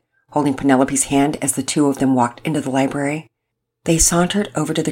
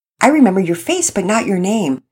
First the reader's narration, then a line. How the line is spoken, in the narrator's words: Penelope answered sweetly